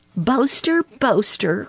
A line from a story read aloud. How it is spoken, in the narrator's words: cried Peter Rabbit